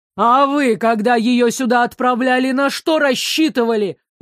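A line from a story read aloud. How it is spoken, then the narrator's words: Yelling, losing composure. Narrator (Russian): завопил, теряя выдержку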